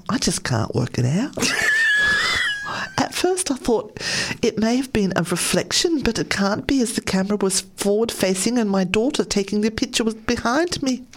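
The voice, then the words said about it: Really bad put-on accent. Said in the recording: “Who knows what those accents are? ... Really bad accent. Really, really bad.”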